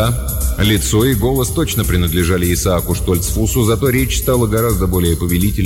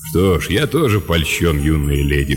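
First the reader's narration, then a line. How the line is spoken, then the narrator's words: Deep bass voice. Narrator (Russian): пробасил Лэб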